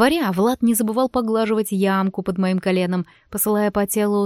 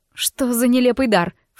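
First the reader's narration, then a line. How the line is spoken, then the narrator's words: Snort. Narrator (Russian): фыркнула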